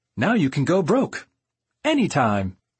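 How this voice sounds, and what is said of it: Cheery announcer voice. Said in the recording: “in a cheery announcer voice,”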